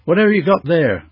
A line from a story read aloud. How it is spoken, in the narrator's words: shouted ma'am